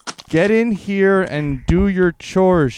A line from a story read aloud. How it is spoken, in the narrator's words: she screamed